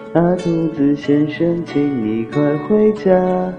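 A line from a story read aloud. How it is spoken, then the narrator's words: Soft child's voice. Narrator (Chinese): 小孩小孩轻声说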